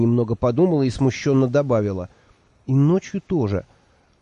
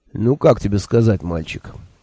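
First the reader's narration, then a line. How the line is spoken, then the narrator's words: Sighing. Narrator (Russian): вздохнул сэр Кофа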